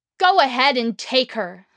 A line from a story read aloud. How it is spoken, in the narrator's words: she screamed